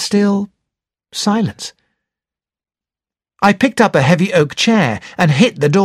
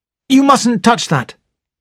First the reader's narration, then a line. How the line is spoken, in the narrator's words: I said sharply